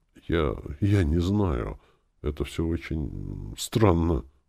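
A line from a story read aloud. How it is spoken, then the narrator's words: Muttered. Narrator (Russian): пробормотал Денис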